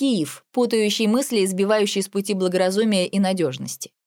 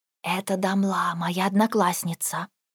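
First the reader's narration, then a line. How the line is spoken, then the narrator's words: Whisper in ear. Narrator (Russian): шепнула на ухо Эмель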